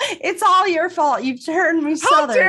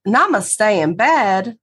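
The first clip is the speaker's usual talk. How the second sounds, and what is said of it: Put-on Southern accent. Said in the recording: “How dare you say that in a southern accent?”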